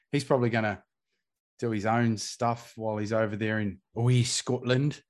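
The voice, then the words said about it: Very poor Scottish accent. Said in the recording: “that really very poor accent.”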